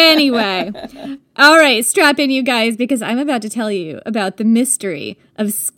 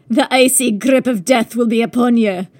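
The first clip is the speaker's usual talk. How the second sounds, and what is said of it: Bad put-on Scottish accent. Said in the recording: “I don't know why I said that in a Scottish accent ... my very bad Scottish accent ... Sounds like a typical American.”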